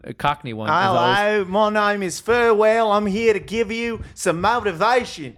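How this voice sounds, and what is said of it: Put-on Australian accent. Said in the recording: “Aussie accents. is quite good, and ... eventually falls into a Cockney one.”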